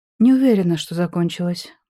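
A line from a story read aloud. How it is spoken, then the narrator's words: Gloomy objection. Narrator (Russian): мрачно возразила я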